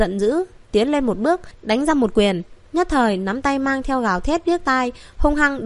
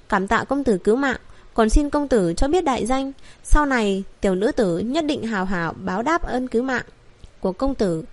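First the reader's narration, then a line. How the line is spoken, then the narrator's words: Gentle, frightened, grateful. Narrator (Vietnamese): Cô gái kia dịu dàng, vừa sợ vừa cảm kích nói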